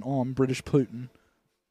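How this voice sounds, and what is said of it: Put-on British accent. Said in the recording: “Trying out my British accent.”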